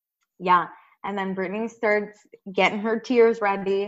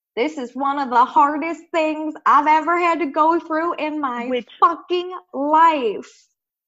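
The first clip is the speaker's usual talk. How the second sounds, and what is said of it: Bad put-on country accent. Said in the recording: “A horrible country accent.”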